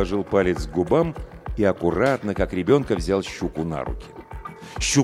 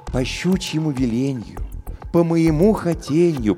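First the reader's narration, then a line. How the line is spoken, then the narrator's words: Cooed. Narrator (Russian): проворковал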